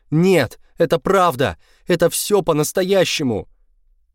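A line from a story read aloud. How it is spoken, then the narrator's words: Shouted. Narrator (Russian): я закричал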